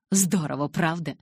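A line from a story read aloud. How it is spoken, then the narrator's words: Joyful exclamation. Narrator (Russian): радостно воскликнул Калин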